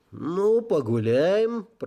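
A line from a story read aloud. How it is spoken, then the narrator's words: Creaky voice. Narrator (Russian): проскрипел я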